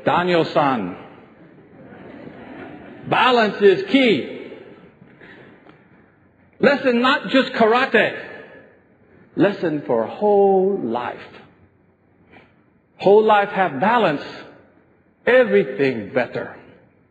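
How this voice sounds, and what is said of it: Imitates an old Japanese man's voice. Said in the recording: “Mr. Miyagi said this, and my impersonation will be terrible”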